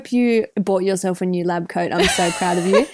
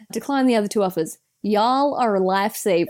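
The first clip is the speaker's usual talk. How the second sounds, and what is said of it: Put-on American accent. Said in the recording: “in my best American accent ... this is my impression of someone from Pennsylvania”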